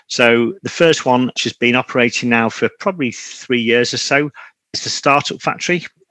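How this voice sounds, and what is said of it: Northern English Manchester accent. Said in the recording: “You can probably tell from my accent, I'm not from the States, but based in the north of England, Manchester in the United Kingdom”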